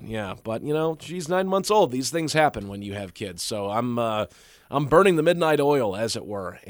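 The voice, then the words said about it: Slightly raspy tired voice. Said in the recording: “my voice is a little raspy here this morning”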